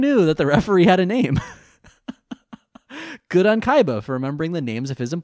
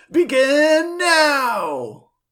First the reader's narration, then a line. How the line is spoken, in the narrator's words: Roland, the referee, yells